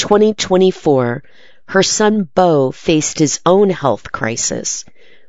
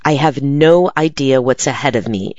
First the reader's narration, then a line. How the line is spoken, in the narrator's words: she says